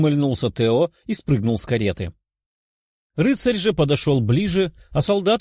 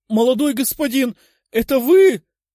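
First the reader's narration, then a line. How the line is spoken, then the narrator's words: Nearly shouting. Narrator (Russian): едва ли не прокричал он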